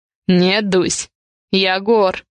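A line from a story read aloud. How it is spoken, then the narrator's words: Answer with a snort. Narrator (Russian): хмыкнув, отвечает он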